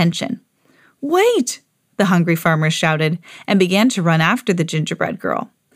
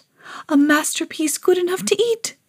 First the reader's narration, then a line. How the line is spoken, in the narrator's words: the artist whispered